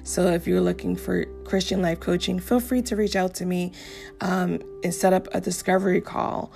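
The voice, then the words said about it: Strained, hoarse voice. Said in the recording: “I'm losing my voice here, guys.”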